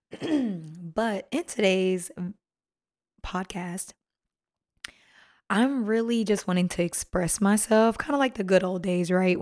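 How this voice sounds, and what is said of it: Strained, sore-throated voice. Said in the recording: “Sorry about my voice... I had a really, really bad sore throat and I kept talking. So I think I damaged my vocal cords”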